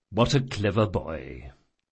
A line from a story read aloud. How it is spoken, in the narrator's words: muttered Chains